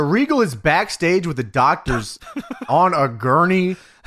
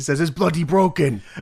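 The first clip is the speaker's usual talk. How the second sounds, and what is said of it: Imitated Regal accent. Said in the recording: “That's pretty good. ... I could not do that accent again if you asked me to. That was a real lucky one.”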